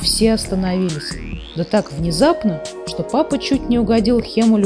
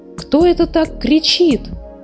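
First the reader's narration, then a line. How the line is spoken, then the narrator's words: Agitated exclamation. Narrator (Russian): взволнованно воскликнула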